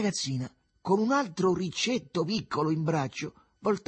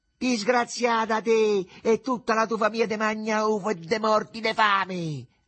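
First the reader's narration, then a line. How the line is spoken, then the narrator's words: Mother shouting after her. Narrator (Italian): le gridò dietro la madre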